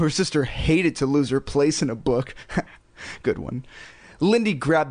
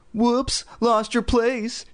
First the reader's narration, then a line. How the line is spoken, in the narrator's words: she exclaimed